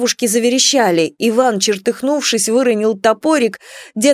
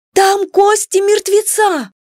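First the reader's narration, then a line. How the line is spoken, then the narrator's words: Sudden tense scream. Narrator (Russian): Соня, не выдержав напряжения, вдруг завопила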